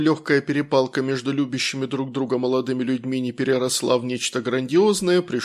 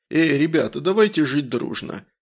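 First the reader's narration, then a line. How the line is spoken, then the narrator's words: Slightly muffled hoarse proclamation. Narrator (Russian): провозгласил слегка приглушенным голосом с хрипотцой в стиле генерала Михалыча из особенностей национальной охоты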